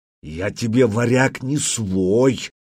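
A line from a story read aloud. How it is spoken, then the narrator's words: Prisoner growling. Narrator (Russian): прорычал пленник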